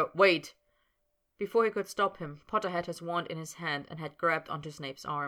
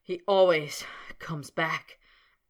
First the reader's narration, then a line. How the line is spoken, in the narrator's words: panted Snape, grinding his teeth together